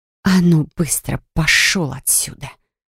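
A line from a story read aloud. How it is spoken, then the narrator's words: Quiet growl. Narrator (Russian): тихо прорычала я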